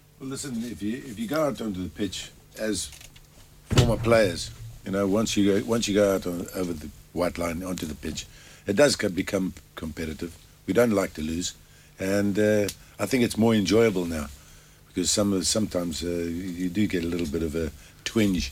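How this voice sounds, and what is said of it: Distinctive recognizable accent. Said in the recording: “Obviously, by the accent, you know exactly who we're talking to. Mr. Bruce Grobbelaar”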